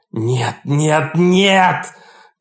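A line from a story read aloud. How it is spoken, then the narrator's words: Crying, shouting. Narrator (Russian): кричал я, пока слезы текли по лицу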